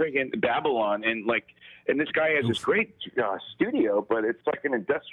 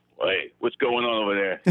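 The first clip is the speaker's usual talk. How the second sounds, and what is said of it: Imitates another person's voice. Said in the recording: “that's a good impersonation. That was great.”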